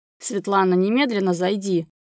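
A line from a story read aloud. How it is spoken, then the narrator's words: Angry, into phone. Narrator (Russian): Зло выговорил в трубку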